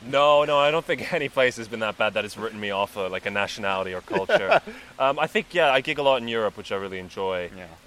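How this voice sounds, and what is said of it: Mixed Central European and American accent. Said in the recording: “my accent. So my mom is Slovenian American and then my dad was Austrian, and then I went to international school in Slovenia”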